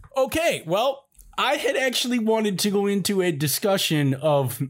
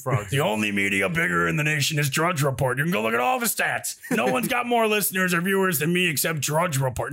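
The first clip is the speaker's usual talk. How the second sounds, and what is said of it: Imitates another person's voice. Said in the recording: “I can't get out of my Alex Jones impression right now. I keep wanting to fall back into it.”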